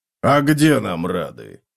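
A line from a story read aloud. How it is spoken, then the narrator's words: Snorting. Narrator (Russian): хмыкнул Готрек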